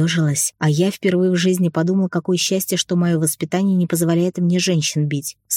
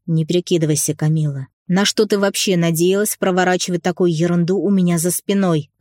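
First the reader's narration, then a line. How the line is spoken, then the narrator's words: Growled. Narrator (Russian): Рыкнул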